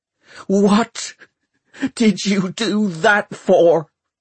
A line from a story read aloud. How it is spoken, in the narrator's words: shouted